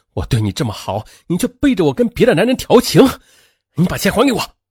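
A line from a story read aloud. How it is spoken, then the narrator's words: Hysterical angry roar. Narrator (Chinese): 他愤怒地……歇斯底里地吼道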